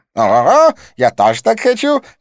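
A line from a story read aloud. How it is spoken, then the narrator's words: Shout. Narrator (Russian): крикнул близнец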